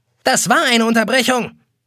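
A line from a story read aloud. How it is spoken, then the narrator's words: Clock shrieking. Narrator (German): kreischt eine gelbe Uhr an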